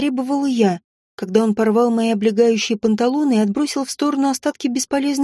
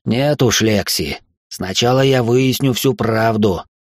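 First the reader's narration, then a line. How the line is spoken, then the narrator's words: Muffled growl. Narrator (Russian): глухо прорычал он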